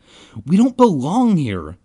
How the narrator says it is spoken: Ben cried

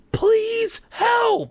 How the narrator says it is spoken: I screamed as loud as I could

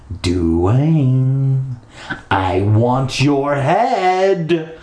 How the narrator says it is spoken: he called, his voice echoing against the concrete walls

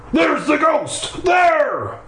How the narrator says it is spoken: Stephanie and I always scream

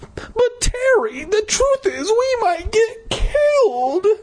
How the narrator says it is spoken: I cried

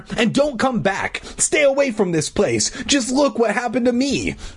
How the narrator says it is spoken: I shouted

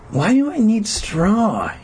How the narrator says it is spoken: He whined

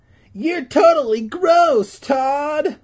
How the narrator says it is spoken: Beth would squeal

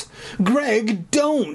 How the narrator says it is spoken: Sherry pleaded, like a rational human being

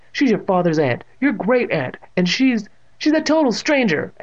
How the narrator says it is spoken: Evan cried

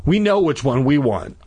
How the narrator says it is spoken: I said breathlessly

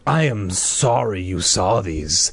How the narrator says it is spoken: the man said in a low, threatening voice

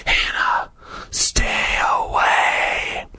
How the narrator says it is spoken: it whispered

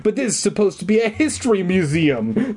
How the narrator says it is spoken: Liz cries

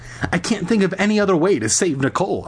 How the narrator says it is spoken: I cried

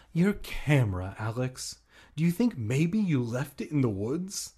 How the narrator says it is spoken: I gasped

